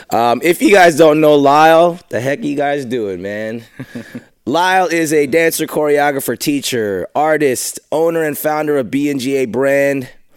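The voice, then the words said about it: Rough, under-the-weather voice. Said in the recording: “apologize for my voice ... I'm kind of fighting the weather right now ... This is my sexy voice”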